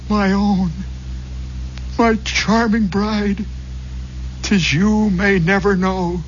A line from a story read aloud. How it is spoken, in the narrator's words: while bitter tears did flow, and cried